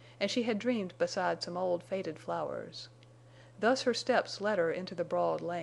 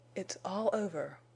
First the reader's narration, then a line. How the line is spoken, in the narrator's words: she heard her voice whisper